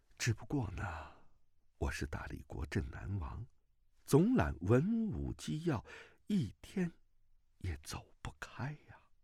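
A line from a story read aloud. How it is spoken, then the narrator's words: Gentle voice. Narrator (Chinese): 段正淳柔声道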